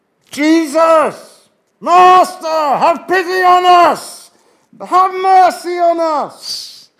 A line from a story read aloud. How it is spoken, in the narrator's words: they're shouting this from a distance